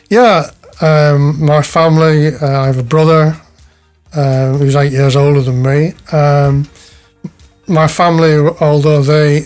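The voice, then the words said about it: Lancashire northern English accent. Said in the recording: “your accent gives away that you're not a Janna born and raised ... I was born just outside Wigan in Lancashire, as you might tell from my accent”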